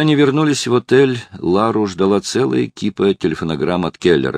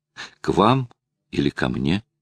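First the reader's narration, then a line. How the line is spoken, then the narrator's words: Quiet question. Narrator (Russian): тихо спросил Филипп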